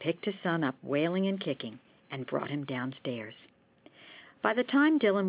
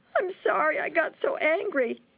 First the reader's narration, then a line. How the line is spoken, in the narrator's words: sobbed